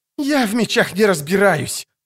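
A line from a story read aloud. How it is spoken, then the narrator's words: Hoarse wheeze. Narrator (Russian): просипел поэт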